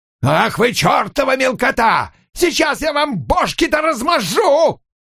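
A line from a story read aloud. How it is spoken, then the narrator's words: Shouting from behind. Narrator (Russian): кричал Баскомб у них за спиной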